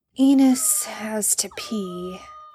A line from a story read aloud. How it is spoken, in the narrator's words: Sam mumbled